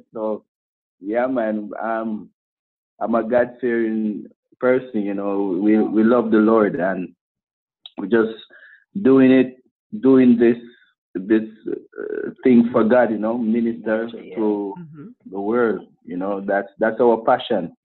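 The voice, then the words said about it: Jamaican accent. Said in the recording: “My background is Jamaican as well ... I can tell by the accent.”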